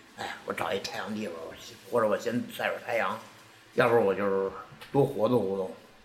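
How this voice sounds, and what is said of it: Beijing accent. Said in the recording (Chinese): “用他的北京口音说出来”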